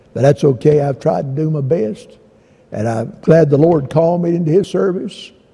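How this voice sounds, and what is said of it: Hoarse voice. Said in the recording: “I couldn't hardly get through this morning, as you saw. I'm so hoarse.”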